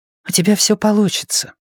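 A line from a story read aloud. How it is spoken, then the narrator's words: Whisper in ear. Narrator (Russian): шепнула ему на ухо Люси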